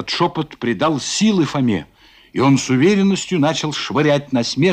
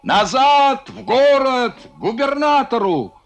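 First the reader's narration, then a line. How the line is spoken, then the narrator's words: Shouting. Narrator (Russian): А Кононов кричал капитану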